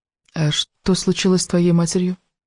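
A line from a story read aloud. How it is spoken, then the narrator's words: Quiet question. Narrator (Russian): тихо спросила Элис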